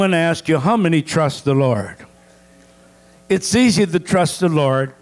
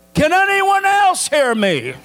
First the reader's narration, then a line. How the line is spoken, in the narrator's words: he yelled